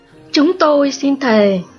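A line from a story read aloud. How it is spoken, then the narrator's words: Exclaiming. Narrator (Vietnamese): kêu lên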